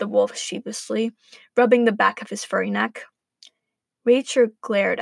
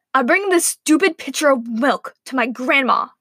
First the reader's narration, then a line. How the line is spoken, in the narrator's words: Rachel snapped